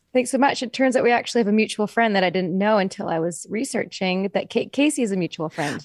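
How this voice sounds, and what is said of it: Slightly congested voice from cold. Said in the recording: “I have a little bit of a cold”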